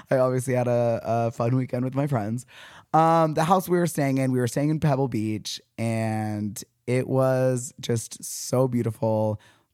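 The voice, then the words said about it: Hoarse, partly lost voice. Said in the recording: “As you can tell, I've been screaming a lot. My voice is a little bit gone.”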